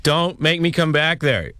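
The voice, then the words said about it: Stern scolding parent voice. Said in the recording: “talk like a parent. ... It's pretty awful. ... Now, that's pretty good. That one kind of sounded like my dad.”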